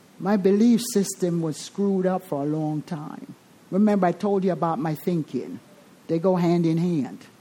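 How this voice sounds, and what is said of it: Jamaican accent. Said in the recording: “I'm Jamaican. In case you hear the accent, you're not delusional. ... But it's authentic.”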